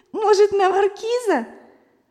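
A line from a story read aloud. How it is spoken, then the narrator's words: Bursting laughter. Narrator (Russian): Зося даже расхохоталась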